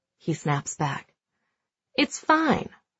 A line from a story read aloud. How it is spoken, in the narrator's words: Pete says calmly